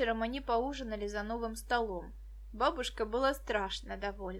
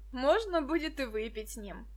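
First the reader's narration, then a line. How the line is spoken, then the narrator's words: Laughing. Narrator (Russian): засмеялся Мединский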